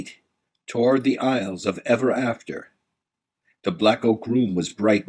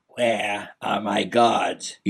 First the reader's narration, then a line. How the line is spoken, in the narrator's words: He croaked